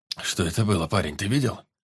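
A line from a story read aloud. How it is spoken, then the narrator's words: Hoarse voice. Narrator (Russian): Спросил он у паренька хрипловатым голосом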